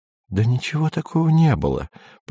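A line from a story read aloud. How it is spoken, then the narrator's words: Whisper. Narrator (Russian): продолжала шептать Сельма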